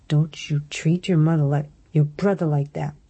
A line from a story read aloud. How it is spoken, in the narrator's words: she hissed, tears springing to her eyes